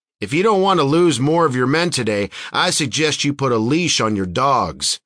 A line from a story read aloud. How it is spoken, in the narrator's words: Sarge shouted